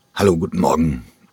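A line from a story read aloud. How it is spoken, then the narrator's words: Croaking. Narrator (German): krächzte er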